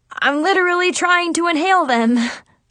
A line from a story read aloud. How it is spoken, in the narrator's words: I giggled nervously